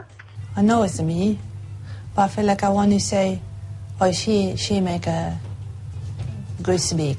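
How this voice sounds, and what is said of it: Speaks with a foreign-sounding accent. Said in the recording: “a voice she didn't recognise ... foreign accent”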